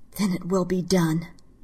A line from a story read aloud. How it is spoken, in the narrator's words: In a quiet, angry voice, she said